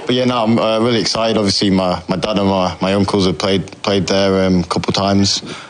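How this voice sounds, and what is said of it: English accent. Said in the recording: “accent's just hanging on. That English accent just hanging on”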